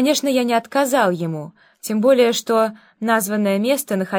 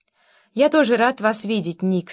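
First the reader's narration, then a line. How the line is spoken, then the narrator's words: Plain. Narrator (Russian): сказал я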